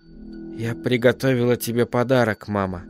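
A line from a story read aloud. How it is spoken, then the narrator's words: Quiet. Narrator (Russian): Затем Кэрри тихо сказала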